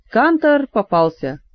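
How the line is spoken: Eerie drunken laughing announcement. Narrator (Russian): с жутковатым нетрезвым хохотом объявил

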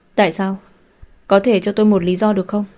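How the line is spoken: Puzzled questioning. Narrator (Vietnamese): Mộc Thiền Đình không nhịn được mà thắc mắc

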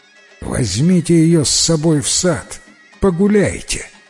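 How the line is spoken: Plain. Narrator (Russian): сказал атаман

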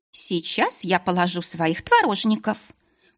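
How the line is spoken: Loud announcement. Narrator (Russian): громко сообщила

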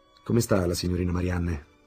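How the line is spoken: Plain question. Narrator (Italian): chiese Fridolin

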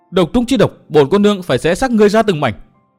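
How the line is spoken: Loud shout. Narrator (Vietnamese): Thượng Tiểu Vân quát to

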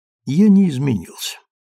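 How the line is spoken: Calm. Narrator (Russian): ответил спокойно де Вольтер

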